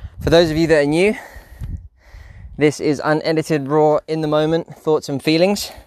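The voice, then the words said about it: Slightly out of breath. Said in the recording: “I'm a bit out of breath.”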